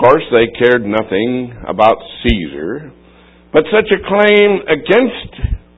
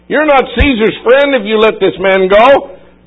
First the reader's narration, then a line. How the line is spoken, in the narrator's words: they shouted